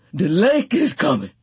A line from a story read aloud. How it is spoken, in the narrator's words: Tea Cake gasped